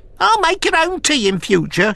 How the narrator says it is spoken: she shrieked, turning cerise

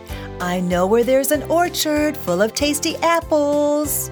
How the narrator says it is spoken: called sweetly

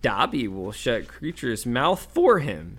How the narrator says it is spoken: cried Dobby in a high-pitched voice

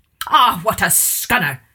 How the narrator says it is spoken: shouted

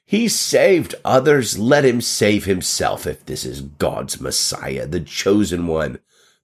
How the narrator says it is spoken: the leaders were scoffing

